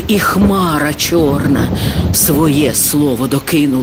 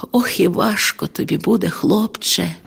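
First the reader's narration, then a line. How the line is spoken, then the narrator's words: Sad sigh. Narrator (Ukrainian): перо чарівне зітхнуло із сумом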